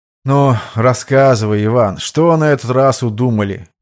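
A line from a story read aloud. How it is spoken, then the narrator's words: Tired sigh. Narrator (Russian): Устало вздохнул Родион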